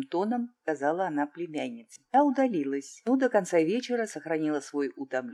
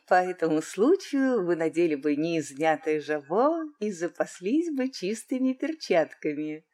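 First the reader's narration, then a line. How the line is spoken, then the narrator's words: Laughing question. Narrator (Russian): смеясь, осведомилась она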